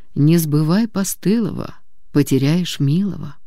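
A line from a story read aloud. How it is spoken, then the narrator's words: Quiet motherly voice. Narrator (Russian): Мама тихо сказала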